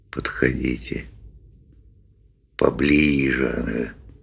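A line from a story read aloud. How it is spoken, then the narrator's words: Quiet coaxing. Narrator (Russian): тихонько подзадаривал он рыб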